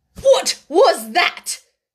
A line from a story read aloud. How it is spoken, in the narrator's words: she exclaimed angrily